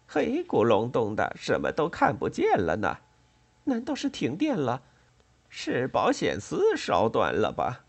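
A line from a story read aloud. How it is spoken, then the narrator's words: Dazed giggling. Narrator (Chinese): 秦奶奶痴痴的笑声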